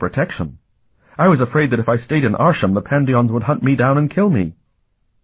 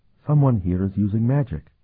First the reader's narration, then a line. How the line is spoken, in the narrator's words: she whispered